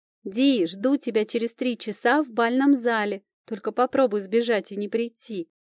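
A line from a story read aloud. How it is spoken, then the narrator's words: Shouted while leaving. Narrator (Russian): прокричала подруга, уходя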